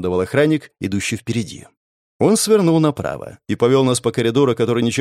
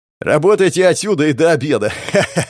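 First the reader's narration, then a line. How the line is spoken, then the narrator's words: Guard's command, then laughter. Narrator (Russian): скомандовал охранник и рассмеялся собственной шутке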